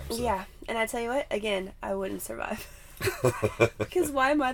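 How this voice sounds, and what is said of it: Scratchy voice from a cold. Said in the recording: “Sorry if I sound a little scratchy. I have a little cold.”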